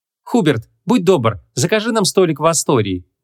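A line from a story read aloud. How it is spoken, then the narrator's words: Shouted while running. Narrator (Russian): набегу крикнула Ванесса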